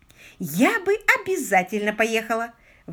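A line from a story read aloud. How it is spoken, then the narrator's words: Exclamation. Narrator (Russian): воскликнула леди Свафхэм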